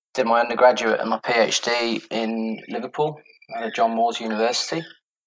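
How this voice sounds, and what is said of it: British accent. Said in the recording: “you can probably tell from my accent somewhat that I'm from the UK originally”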